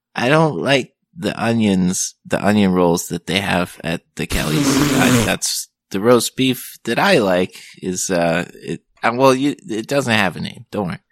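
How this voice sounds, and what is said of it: Timid character voice with accent. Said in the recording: “You don't meet too many timid guys with that accent, but when you do, it's delightful.”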